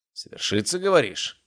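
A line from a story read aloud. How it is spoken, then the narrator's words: Snort. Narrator (Russian): хмыкнул Ярослав Андреевич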